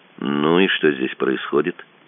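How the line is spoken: Calm, mildly defiant. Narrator (Russian): спросил пленный, не особенно вызывающе, но все равно неуместным в его положении спокойным тоном

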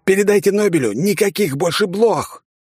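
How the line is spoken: Yelling over radio. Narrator (Russian): заорал я в эфир

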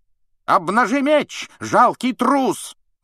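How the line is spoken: Angry yell. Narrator (Russian): заорал на него сэр Кэдоган

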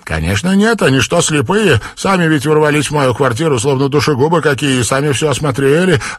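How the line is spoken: Snapping. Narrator (Russian): огрызнулась хозяйка

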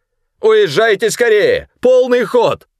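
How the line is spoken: Strained shout while struggling. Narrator (Russian): крикнул он, борясь с санитарами

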